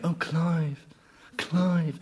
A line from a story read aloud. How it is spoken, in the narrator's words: she started to come on all horny, you know, murmuring